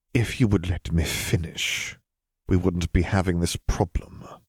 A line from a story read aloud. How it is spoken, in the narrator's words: Wizard Lennon said in a quiet voice